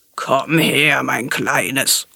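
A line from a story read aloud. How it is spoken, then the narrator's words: Crocodile growling. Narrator (German): knurrte das Krokodil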